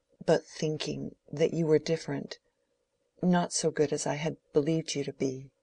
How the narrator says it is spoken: She made a great effort over herself to say in a low, tremulous voice

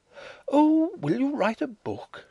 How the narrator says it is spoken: she cried

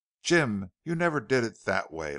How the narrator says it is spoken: laughed Joan

